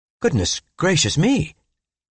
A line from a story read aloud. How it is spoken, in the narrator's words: I exclaimed